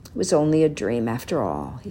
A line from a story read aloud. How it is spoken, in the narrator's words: he said to himself sadly